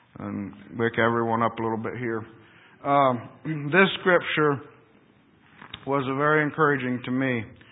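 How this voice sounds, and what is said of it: Monotone voice, sounds like a cold. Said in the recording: “my voice probably, I have a cold, and I'm sure my voice is always a bit monotone”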